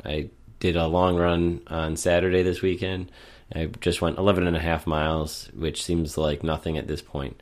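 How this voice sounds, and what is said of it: Sick, congested, slightly off voice. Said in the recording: “I've been sick for over a week and a half now, which will be very evident in today's recording... losing my voice... you'll definitely be able to tell my voice is a little bit different. And even today, I think it's still a little bit off... sinus condition”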